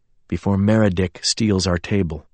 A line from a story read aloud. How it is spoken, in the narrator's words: James said quietly